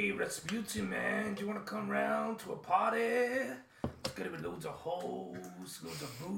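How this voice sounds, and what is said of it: Usual voice. Nothing is said of it.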